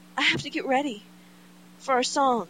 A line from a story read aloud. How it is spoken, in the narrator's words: Kevin explains desperately, needlessly